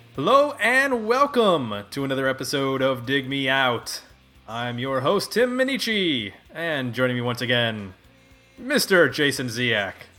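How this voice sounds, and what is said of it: Radio announcer voice. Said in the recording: “doing my radio announcer voice ... Sounds like Rush Limbaugh or something.”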